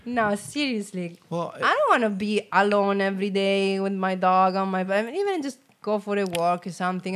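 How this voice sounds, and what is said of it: Italian accent. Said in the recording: “I love your accent. Oh, you're from Italy. ... oh, you're Italian.”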